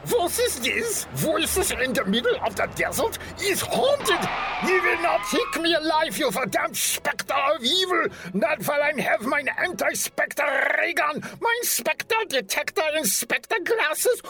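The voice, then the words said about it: Terrible put-on German accent. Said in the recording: “my terrible German accent.”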